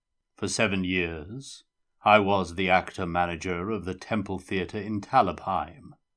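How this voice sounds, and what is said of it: Deep, sepulchral, scary character voice. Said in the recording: “in deep, sepulchral tones ... It was a fine, scary voice.”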